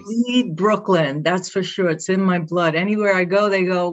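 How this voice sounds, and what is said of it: Brooklyn accent. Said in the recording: “"What's your accent?" I said, "I'm from Brooklyn."”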